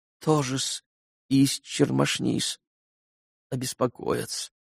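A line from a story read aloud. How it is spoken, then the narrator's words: Flustered near-whisper mumble. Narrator (Russian): пробормотал Смердяков почти шепотом, точно как бы потерявшись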